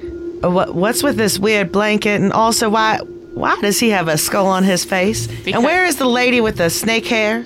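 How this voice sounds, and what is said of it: Put-on southern accent. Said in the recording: “Why is your voice not a southern accent? ... I forgot that I was southern for a second.”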